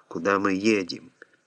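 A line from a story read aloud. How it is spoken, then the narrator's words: Plain. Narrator (Russian): Ответил водитель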